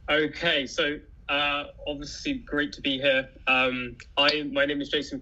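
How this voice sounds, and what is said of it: English accent. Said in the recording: “He does have a credible English accent... He sounds smarter than both of us.”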